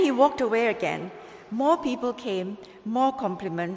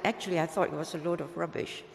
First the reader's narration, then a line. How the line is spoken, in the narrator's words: the small man muttered